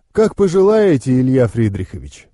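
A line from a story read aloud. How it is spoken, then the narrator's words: Answered calmly. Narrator (Russian): спокойно ответил маг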